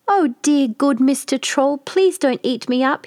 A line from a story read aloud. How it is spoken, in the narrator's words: he cried